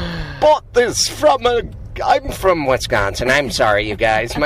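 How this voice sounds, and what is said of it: Usual voice. Nothing is said of it.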